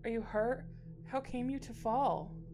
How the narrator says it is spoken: cried

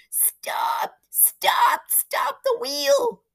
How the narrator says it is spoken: wailed a voice high in the night

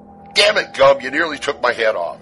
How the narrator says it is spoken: shouted back

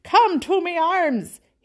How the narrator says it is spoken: cried

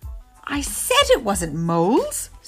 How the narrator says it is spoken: squealed, bouncing about with glee

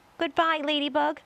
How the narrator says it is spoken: gasped James

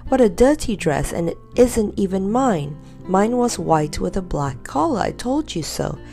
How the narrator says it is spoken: cried Dame Grumble

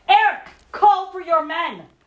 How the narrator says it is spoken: I cut my hands around my mouth and yelled

